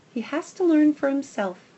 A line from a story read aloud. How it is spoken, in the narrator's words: Patches says